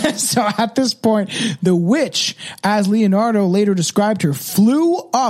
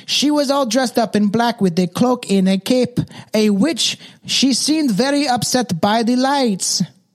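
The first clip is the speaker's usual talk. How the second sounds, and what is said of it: Put-on Mexican accent. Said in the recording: “That's my best Mexican accent. ... That was beautiful.”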